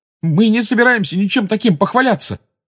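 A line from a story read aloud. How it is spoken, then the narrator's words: Exclaiming. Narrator (Russian): воскликнул Гарри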